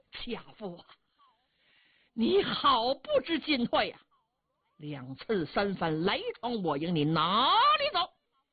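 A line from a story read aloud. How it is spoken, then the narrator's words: Furious old general. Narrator (Chinese): 老将 气得苍眉倒竖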